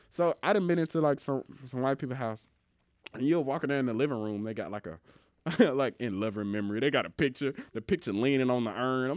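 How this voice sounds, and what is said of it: Mississippi accent. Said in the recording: “your Mississippi accent, man. It gets me sometimes.”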